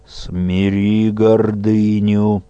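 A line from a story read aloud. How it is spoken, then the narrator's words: Muffled stern admonition. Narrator (Russian): глухо увещевал владыка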